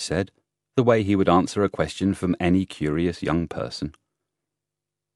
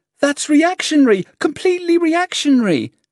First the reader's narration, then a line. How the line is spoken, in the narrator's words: the frightened girl shouted